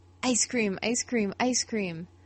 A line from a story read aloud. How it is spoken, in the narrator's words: Finn excitedly chanting